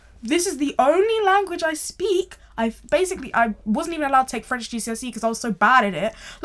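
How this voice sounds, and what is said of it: British accent. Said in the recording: “Black British... you can hear my accent”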